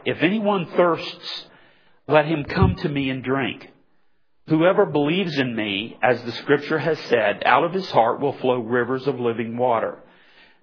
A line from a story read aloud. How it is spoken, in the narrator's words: Jesus cried